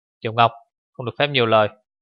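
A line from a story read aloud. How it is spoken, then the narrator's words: Cautious sharp cold voice. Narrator (Vietnamese): Một giọng nói thận trọng, thật sắc mà cũng thật lạnh lùng từ phía trước vang lại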